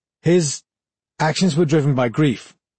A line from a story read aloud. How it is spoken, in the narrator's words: Valen faltered